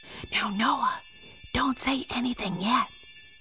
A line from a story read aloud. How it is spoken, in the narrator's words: whispered Ian